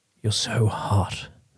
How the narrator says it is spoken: the bearded one whispered

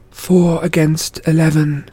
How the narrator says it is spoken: Zoe muttered

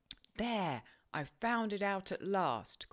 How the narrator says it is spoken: cried Hindley

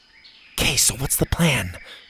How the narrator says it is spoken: Zeta whispered

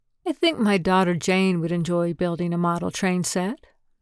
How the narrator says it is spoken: Bess said

